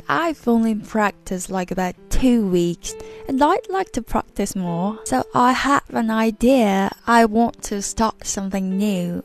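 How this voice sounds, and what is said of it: Imperfect put-on British accent. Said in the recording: “here comes my British accent, but it's not perfect”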